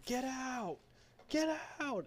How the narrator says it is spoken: He's yelling

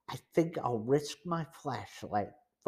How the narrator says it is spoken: Frank said in a low voice

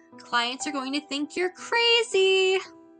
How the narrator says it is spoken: yelled Wendy from the other room with a chuckle

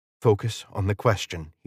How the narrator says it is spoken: whispered

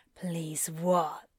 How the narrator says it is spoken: Crowley growls in his ear

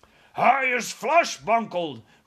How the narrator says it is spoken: roared the flesh lump eater

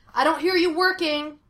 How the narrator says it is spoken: Henry shouted

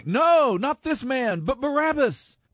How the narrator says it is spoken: they shouted back

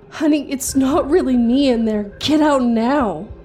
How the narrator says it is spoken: sounded exactly like my wife yelling

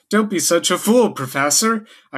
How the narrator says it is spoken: I cried

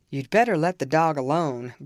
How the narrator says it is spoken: growled Mr

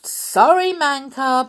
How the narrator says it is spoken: shouted

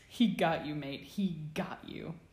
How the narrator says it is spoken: Sirius's voice, weak with laughter, say to James

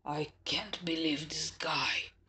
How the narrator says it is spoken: whispered to me

